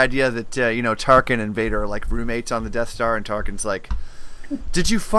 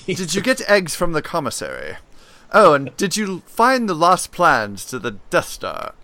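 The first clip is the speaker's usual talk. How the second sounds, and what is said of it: Posh My Fair Lady-style accent. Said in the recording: “you make them sound like characters in My Fair Lady with that accent”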